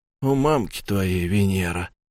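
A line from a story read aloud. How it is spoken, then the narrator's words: Muttering. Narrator (Russian): пробормотал я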